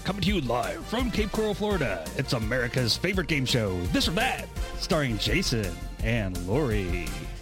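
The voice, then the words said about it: Corny radio announcer voice. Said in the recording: “It's the voice... The Yuck Yuck Radio voice.”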